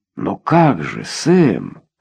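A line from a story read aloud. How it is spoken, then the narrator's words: Furious exclamation. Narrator (Russian): яростно воскликнул Рой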